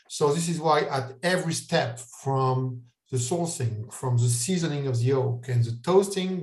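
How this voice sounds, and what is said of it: French accent. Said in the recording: “my French accent is terrible”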